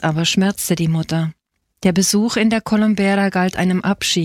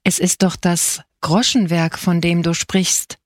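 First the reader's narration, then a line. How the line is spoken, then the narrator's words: Plain, father. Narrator (German): sagte der Vater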